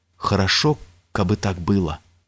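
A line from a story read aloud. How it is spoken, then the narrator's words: Whisper. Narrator (Russian): прошептал Иван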